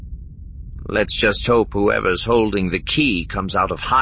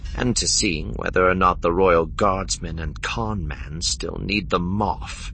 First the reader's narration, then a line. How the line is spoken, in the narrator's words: Deesra muttered aloud after him